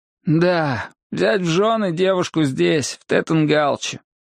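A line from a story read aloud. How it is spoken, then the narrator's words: Sighing. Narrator (Russian): он вздохнул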